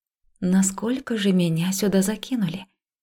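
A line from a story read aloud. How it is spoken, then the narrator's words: Muttering to herself. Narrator (Russian): Пробормотала себе под нос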